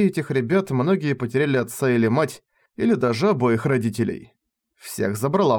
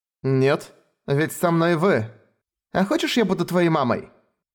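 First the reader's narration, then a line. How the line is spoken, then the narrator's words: Giggling. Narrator (Russian): она хихикает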